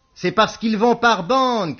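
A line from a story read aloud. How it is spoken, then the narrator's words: Shout. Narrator (French): cria Beaumasque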